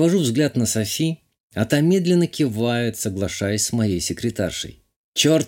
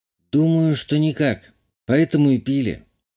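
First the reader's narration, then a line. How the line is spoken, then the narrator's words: Sighing confession. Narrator (Russian): вздохнув, призналась Лена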